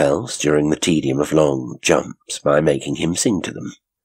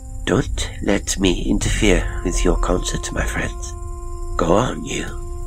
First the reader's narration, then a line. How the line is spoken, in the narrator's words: Madame Brandt murmured in her low voice